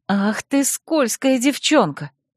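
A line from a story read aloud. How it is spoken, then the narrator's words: Menacing whisper. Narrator (Russian): грозно прошептала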